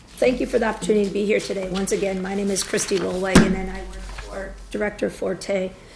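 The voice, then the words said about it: Froggy, squeaky voice from a cold. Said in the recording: “I'm a little froggy and fighting a cold, so you'll just have to endure my squeaky voice”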